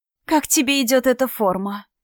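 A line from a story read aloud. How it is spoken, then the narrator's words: Sugary cooing voice. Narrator (Russian): елейным голоском проворковала она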